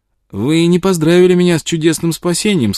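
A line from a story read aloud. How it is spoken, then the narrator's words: Cheerful. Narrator (Russian): сказал он весело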